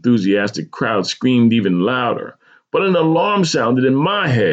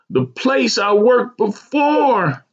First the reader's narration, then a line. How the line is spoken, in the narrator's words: Dana screamed